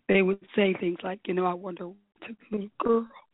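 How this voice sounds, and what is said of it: Choked-up, emotional voice. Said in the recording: “I get choked up right now. Excuse me, I'm sorry.”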